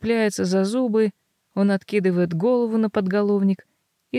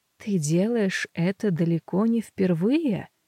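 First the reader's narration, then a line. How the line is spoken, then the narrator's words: Quiet. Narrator (Russian): тихо говорит он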